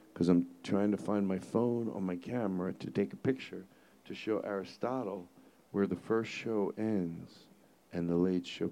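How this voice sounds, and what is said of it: Whispering. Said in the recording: “They can leave this whispering part in. You know why I'm whispering?”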